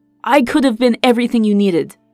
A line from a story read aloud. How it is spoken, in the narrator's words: Kael thundered